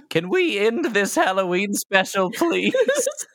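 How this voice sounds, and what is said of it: Warbly put-on character voice. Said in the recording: “It is kind of warbly, isn't it?”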